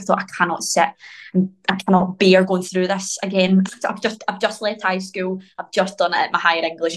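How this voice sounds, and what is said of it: Glaswegian accent. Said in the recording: “my Glaswegian accent”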